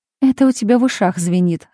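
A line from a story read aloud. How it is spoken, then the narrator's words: Laughing. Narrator (Russian): рассмеялась Марина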